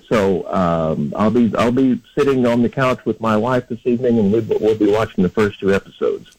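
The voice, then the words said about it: Excited, eager tone. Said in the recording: “I can hear the excitement in your voice.”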